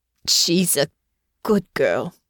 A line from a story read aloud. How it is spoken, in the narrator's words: he said, his voice thick with emotion